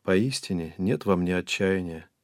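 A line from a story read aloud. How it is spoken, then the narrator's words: Calm reply. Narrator (Russian): спокойно ответила ему Хаджар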